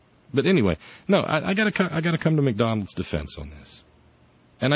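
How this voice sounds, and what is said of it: Usual voice. Nothing is said of it.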